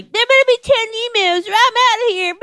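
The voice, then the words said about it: Imitates another person's voice. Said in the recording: “Oh my God, spot on... you have such a great impression.”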